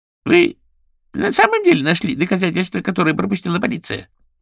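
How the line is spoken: Squeaky voice. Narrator (Russian): пропищал голос

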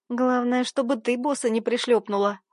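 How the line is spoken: Chuckling. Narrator (Russian): хохотнула Карина

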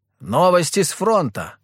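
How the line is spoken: Shouted. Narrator (Russian): крикнул один из дворян

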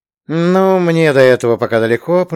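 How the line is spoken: Grumbling. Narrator (Russian): проворчал динавицер

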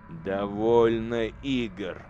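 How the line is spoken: Growling. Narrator (Russian): зарычал лорд-командор

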